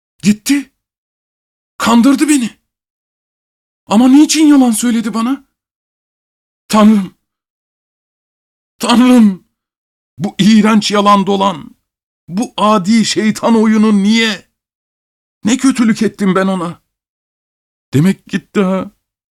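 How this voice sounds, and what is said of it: Shouting in anguish. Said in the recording (Turkish): “bağırmaya başladı”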